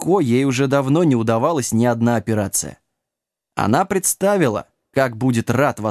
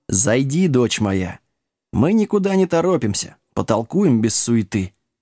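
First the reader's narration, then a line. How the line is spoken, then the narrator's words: Calm. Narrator (Russian): спокойно ответил отец Доминик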